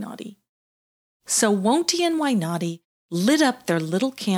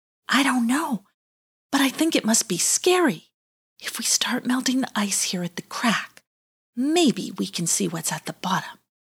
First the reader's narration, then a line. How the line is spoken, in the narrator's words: Wonty whispered back